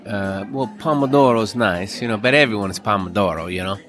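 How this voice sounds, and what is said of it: Put-on Italian accent. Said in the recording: “doing an Italian accent”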